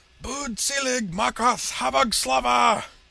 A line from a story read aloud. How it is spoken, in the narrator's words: Shandor screeched, his eye and neck veins bulging